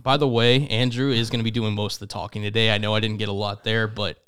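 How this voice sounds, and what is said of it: Recovering voice, slight cough. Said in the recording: “my voice is still recovering ... He's got a little cough”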